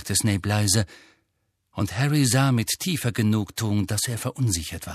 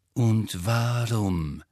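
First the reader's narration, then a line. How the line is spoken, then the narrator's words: Slow speech. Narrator (German): sagte Snape langsam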